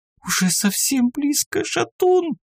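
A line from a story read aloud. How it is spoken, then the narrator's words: Tearful, sniffling whisper. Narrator (Russian): сквозь слезы, шмыгая носом, прошептала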